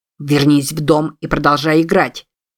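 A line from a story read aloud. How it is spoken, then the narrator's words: Barked. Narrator (Russian): рявкнул Купер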